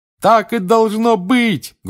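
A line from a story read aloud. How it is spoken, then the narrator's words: Loudest shout. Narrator (Russian): громче всех кричал Рон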